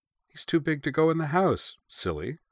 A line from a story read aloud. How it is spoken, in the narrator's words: Uwe replied cheerfully